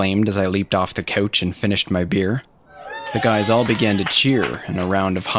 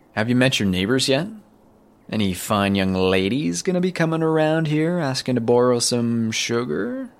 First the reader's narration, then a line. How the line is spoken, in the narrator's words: asked in a sarcastic tone